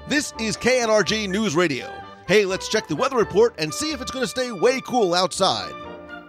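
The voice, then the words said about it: Announcer-style radio voice. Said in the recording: “I'm going to do it in the radio voice because it's done in a radio voice ... that's not the best radio voice in the world”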